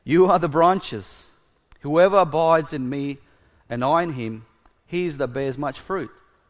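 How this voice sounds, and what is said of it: Speaks English with an accent. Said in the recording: “Sorry, my vine, wine? See my accent?”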